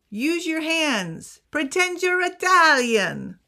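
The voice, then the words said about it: Bad put-on Italian accent. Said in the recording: “I know that was a really bad accent.”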